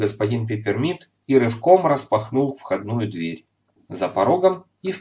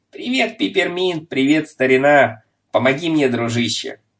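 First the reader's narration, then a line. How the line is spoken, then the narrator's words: Loud and cheerful. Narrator (Russian): Громко и весело проговорил он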